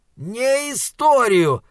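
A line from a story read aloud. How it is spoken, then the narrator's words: Roared. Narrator (Russian): взревел Моргенс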